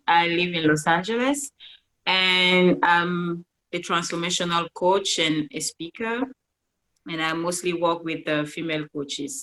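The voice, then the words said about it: Cameroonian accent in English. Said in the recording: “I'm originally from Cameroon. That's why you have this beautiful accent.”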